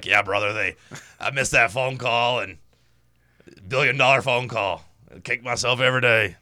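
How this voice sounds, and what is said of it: Poor Hulk Hogan impression. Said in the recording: “Not a good Hulk Hogan impression.”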